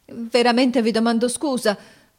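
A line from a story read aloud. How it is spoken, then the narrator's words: Confused stammer. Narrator (Italian): balbettò confusamente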